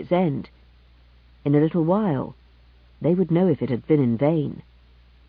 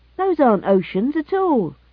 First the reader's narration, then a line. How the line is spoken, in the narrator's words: Hilvar exclaimed suddenly